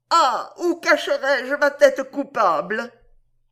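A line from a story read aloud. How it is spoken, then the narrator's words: Crying out. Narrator (French): s'écria-t-elle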